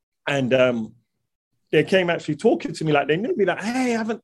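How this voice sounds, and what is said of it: London accent. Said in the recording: “hear the accent and they were like oh my god you're from London”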